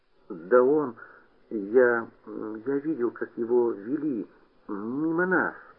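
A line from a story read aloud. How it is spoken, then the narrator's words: Mumbling. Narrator (Russian): пробормотал Петька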